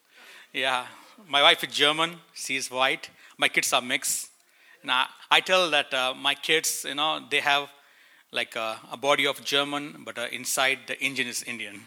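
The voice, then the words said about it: Indian-accented English. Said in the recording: “I'm Indian. I live in India. I have an Indian accent.”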